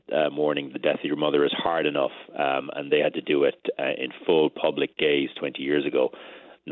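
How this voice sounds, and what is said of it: Irish accent. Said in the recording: “your magnificent Irish accent”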